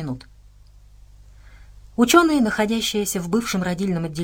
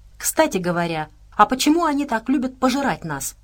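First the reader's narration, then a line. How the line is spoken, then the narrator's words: Plain. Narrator (Russian): спросил Отто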